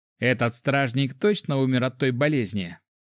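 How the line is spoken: Snorting. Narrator (Russian): фыркнул еще один

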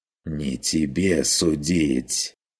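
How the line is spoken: Fierce hiss. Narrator (Russian): прошипел господин ожесточенно

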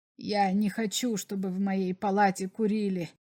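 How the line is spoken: Quiet but insistent. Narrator (Russian): сказал Берлах тихо, но настойчиво

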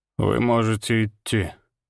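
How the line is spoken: Weary. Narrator (Russian): устало махнул рукой барон

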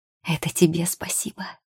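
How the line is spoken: Whispered. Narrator (Russian): шепнула она

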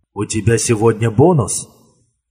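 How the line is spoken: Quiet question. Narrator (Russian): тихо спросил Бьорн

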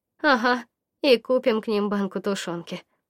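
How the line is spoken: Gloomy addition. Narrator (Russian): добавила мрачно Варя

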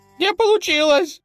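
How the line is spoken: Squeaking. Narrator (Russian): пискнул тот

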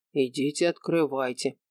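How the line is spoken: Plain. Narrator (Russian): сказал Шура

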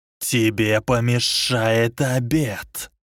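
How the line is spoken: Hiss. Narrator (Russian): прошипел Волан-де-Морт

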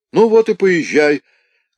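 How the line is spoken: Shouting from water. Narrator (Russian): крикнул Кирюха из воды

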